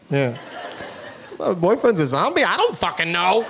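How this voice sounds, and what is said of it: Imitates another person's voice. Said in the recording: “That's a very good impression of me, too. It's very authentic.”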